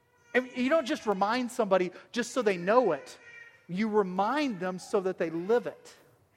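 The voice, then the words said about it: Southern US accent. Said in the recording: “you can't tell that I have a southern accent ... I have a southern accent.”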